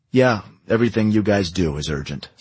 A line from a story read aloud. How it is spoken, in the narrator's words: said Farbison